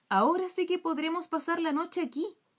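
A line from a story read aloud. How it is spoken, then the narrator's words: Exclaimed. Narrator (Spanish): exclamó Calfurrayén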